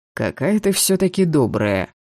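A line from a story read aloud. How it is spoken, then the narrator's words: Mocking drawl. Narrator (Russian): насмешливо протянул Шейн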